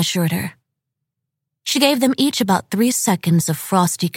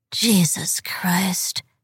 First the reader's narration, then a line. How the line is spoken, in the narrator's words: she muttered